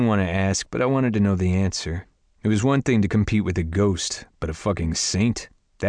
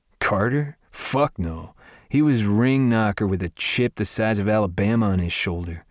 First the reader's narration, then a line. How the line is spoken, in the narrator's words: Jagger scoffed